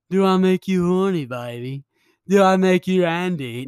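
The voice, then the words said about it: Attempted Austin Powers impression. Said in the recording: “I can do Austin Powers... No, I can't even do Austin Powers, man.”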